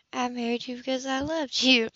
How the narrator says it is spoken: she said softly

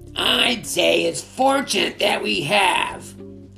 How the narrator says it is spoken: snapped Snitch

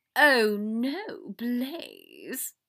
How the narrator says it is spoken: Draco laughed

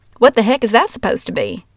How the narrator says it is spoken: she exclaimed nice and loud for the whole class to hear

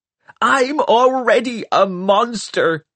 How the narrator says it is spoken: she shrieked

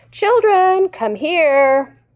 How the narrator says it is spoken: Father called out

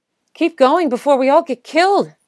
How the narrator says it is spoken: she said urgently

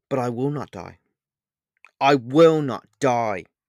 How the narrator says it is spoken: Pan shouted into the air

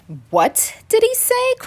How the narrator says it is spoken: cried the frogs

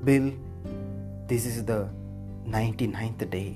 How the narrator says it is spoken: she said quietly

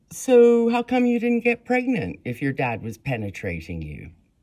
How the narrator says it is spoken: In an impersonal tone, the police officer asked Mary

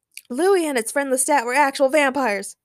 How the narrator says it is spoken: shouted Daniel

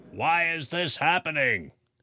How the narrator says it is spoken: the baker shouted

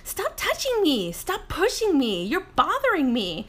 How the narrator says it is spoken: my daughter whining

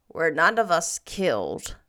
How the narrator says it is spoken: said Marilla grimly

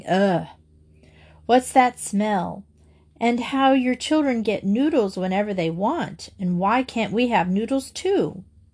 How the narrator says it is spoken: Carol McGill laughed

